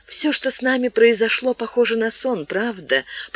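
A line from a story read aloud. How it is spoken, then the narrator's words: Sleepy happy whisper. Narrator (Russian): прошептала Шарлотта, когда они, словно счастливые дети, погружались в сон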